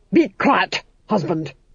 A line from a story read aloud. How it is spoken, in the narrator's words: snapped the Duchess